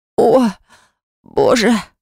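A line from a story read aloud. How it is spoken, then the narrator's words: Hoarse wheeze. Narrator (Russian): просипела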